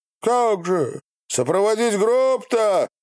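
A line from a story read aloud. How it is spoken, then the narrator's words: Monks shouting. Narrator (Russian): кричали иноки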